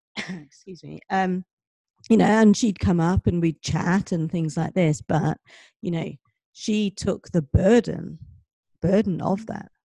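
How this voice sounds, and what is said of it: Hoarse, strained voice. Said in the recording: “My voice is gone.”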